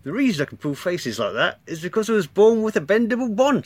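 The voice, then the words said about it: Comic character voice with put-on accent. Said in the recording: “he's got this fantastic accent... That's how I imagine he talks”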